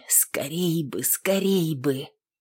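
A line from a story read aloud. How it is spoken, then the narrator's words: Whispered. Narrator (Russian): шептали ее губы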